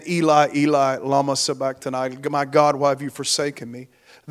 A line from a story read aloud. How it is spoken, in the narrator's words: Jesus cries out again with a loud voice